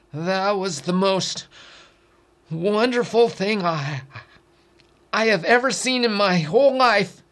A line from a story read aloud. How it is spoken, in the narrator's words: in astonishment, his voice shaky, said